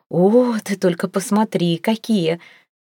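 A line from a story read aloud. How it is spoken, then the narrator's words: Breathless delight. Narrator (Russian): выдохнула Ангелина с восторгом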